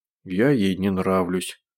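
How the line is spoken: Big man grumbling. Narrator (Russian): пробурчал здоровяк

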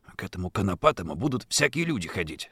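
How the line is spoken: Whispering. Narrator (Russian): снова зашептал Сашка

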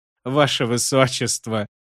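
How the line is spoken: Chuckling. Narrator (Russian): хохотнул Шут

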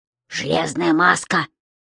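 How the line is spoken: Hiss. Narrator (Russian): прошипел Том

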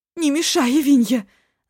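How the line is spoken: Yelled. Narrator (Russian): завопила

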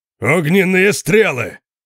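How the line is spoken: Thunderous roar. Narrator (Russian): проревел Конан столь же громко, как сам дракон

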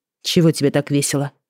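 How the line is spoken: Muttered. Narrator (Russian): пробормотала я

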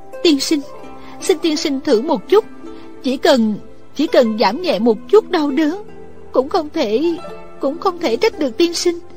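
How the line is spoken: Pleading. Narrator (Vietnamese): Thích Phương lại cầu xin

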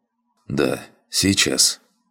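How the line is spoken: Muttered. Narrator (Russian): пробормотал я

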